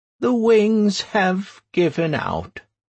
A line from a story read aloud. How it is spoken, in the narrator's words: she said sadly